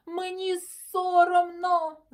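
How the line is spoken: Shouting. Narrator (Ukrainian): закричав

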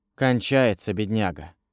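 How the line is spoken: Muttering host. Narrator (Russian): пробормотал хозяин

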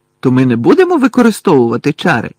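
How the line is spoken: Exclaimed. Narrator (Ukrainian): вигукнув Рон

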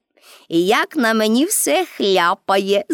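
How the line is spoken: Laughing. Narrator (Ukrainian): засміялася Пепі

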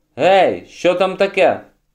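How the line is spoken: Shouted. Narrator (Ukrainian): крикнув Генрі

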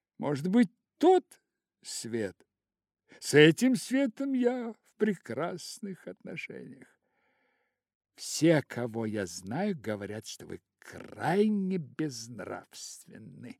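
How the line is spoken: Old lady exclaiming. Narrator (Russian): воскликнула старая дама

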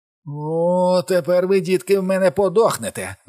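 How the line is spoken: Shouted. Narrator (Ukrainian): закричав

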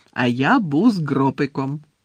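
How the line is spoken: Cheerful. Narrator (Ukrainian): радісно повідомив Гегрід

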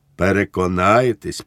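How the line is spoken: Calmer, friendly, smiling. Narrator (Ukrainian): повторив уже спокійнішим тоном, приєднавши до цього приязний усміх

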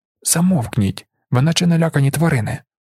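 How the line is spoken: Hissed. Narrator (Ukrainian): зашипів Фрімен

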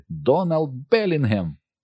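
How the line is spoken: Exclaimed in unison. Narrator (Ukrainian): разом в один голос вигукнули

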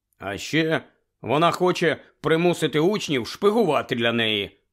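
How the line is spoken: Angry grumble. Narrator (Ukrainian): сердито буркнув Рон

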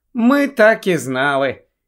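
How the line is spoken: Sigh. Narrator (Ukrainian): зітхнула Герміона

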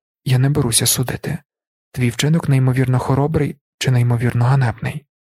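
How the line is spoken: Sighed. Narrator (Ukrainian): Лірін зітхнув

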